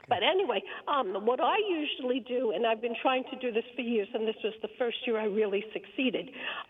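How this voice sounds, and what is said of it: Strained voice from laryngitis. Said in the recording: “I have laryngitis, so I'm going to try to make this quickly so I don't lose my voice.”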